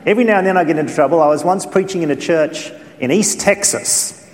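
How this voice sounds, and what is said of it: Australian accent. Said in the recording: “me having an accent ... apparently I have one as far as you're concerned ... being an Australian”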